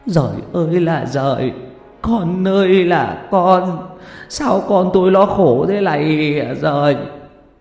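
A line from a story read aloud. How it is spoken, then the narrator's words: Sobbing wail. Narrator (Vietnamese): Bà Trung ôm cái đầu lâu mà khóc nức nở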